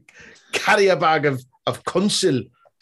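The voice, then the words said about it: Funny attempted Scottish-style accent with twang. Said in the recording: “You say it with the funniest accent. ... You put a twang on it.”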